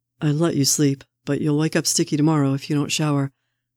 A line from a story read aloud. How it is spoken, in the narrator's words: Steve says